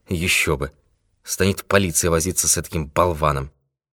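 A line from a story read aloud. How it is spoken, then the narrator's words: Muttering to himself. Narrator (Russian): пробормотал про себя Пинкертон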